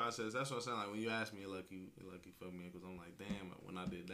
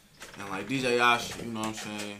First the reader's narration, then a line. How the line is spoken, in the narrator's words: She snapped